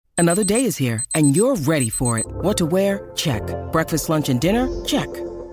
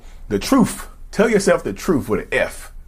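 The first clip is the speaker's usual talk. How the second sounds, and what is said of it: Exaggerated North Carolina southern drawl. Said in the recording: “if I say it in my southern drawl that reads from North Carolina, drawl”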